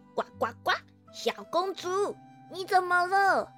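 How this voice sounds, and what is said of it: Strange small frog voice. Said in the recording (Chinese): “突然冒出了一个奇怪的小声音”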